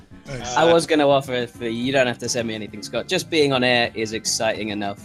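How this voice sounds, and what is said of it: English accent from near London. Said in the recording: “having your accent here elevates the proceedings ... Just outside London, England.”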